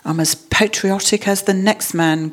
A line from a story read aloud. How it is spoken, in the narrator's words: grumbled Mr